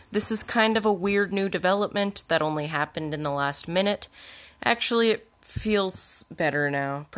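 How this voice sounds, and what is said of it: Voice sounds like it's going. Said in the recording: “it sounds like I'm losing my voice. ... Probably still sounds weird.”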